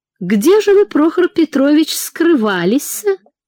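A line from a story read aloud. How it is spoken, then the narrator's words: Cooing. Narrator (Russian): проворковала Анфиса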